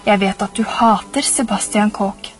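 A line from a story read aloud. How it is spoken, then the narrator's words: Low voice. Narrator (Norwegian): sa han med lav stemme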